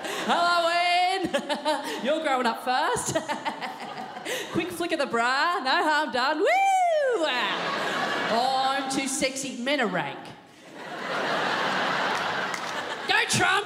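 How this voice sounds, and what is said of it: Comic character voice, sleazy dad. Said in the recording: “This is my impersonation of a dirty double daddy at a disco”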